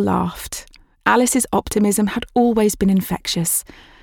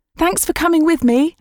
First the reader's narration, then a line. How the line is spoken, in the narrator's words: Alice shouted back at Jill